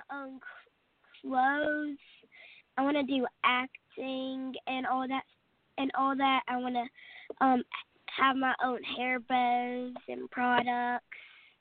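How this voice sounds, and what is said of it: Southern US accent. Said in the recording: “I hear a southern accent. ... I can definitely tell in your voice, you know, you sound southern.”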